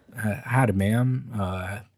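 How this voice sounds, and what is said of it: Put-on southern accent. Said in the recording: “Is this your southern accent? ... I'm working on it.”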